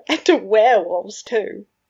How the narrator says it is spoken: he said through his laughter

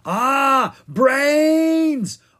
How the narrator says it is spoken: Owen screamed

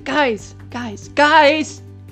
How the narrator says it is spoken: yelled Whiskers

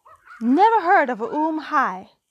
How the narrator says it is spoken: cried the ape

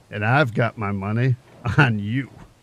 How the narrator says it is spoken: he added with a laugh

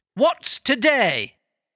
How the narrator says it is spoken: cried Scrooge, calling downward to a boy

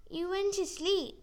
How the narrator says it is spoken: Molly squeaked in her tiny voice

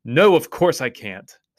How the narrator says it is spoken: snapped Susan

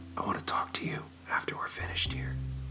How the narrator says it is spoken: whispered in his ear

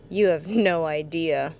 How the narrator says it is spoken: chuckled nervously

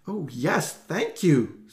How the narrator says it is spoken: Susie said breathlessly

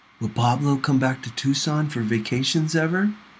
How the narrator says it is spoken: Angel whispered to me

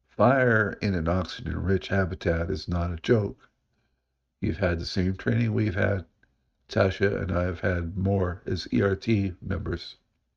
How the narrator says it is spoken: In a level voice, Brandon said

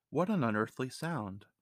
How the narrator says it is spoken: exclaimed Aubrey Lowell

